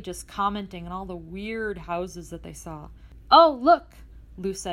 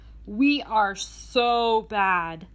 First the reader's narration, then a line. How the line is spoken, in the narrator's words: Emily exclaimed